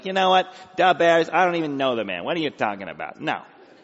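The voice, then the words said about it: Nasal Chicago accent. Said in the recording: “If you're from Chicago, you had a little nasal talk, and from Chicago, da bears... here's pretty much what Peter would have sounded like if he grew up in Illinois.”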